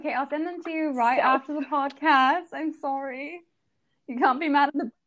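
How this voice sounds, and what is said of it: Put-on British accent. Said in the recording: “this British accent”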